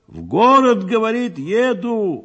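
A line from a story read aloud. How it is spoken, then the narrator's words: Loud shout in ear. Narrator (Russian): громко прокричала ему на ухо Михеевна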